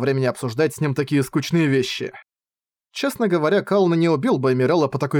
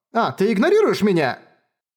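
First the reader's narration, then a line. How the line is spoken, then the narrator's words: Displeased yelling. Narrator (Russian): Колны недовольно завопил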